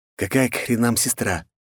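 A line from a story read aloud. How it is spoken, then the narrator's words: Quiet hiss. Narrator (Russian): прошипел я волку тихо, чтобы не услышал малец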